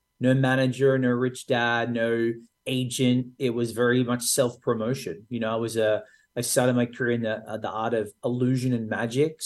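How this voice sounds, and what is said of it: Australian accent. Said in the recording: “It's an Australian accent.”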